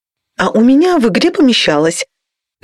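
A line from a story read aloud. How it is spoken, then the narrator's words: Somewhat offended. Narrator (Russian): как-то обиженно заметила дизайнерша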